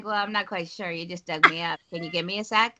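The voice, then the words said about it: Playful character voice. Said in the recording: “She can do voices and accents.”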